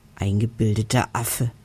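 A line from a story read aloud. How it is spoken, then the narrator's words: Hissing. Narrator (German): zischt Harry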